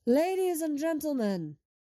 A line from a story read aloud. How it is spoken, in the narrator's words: Hunter yells from the doorway